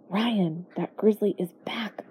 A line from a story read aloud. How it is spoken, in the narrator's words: I whispered